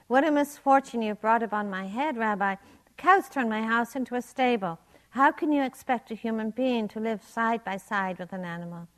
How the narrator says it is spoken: lamenting loudly

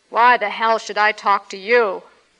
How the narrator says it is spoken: He roared above the clanking wheels

